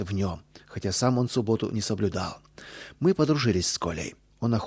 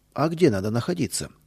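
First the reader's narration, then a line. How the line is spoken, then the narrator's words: Plain question. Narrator (Russian): спросил он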